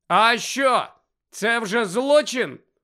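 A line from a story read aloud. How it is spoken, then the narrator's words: Loud question. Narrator (Ukrainian): голосно запитав Фред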